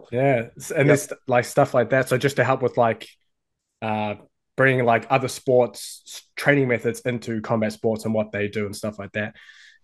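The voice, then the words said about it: New Zealand accent. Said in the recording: “his Kiwi accent ... you got a bit of a Kiwi accent happening there”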